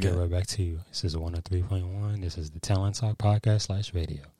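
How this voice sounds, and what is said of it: Smooth radio DJ voice. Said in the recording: “has the perfect radio voice.”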